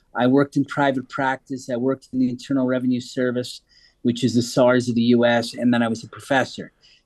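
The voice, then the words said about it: American accent. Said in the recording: “That's why the American accent.”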